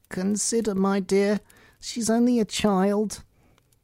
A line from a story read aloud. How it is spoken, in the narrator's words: timidly said